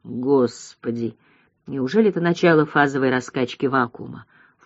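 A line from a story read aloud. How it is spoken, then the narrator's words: Undertone, alarmed. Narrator (Russian): вполголоса проговорила Баянова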